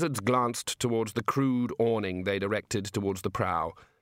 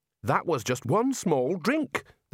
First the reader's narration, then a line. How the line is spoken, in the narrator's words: the Dean snapped